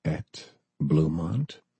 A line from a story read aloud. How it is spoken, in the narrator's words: He said the two words slowly